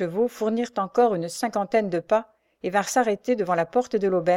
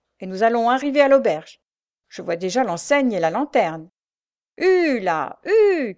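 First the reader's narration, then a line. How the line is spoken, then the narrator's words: Coachman shouting. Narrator (French): cria le cocher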